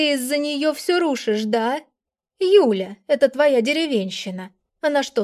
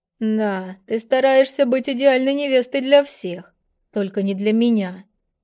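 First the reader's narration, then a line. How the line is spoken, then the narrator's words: Calm. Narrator (Russian): спокойно сказал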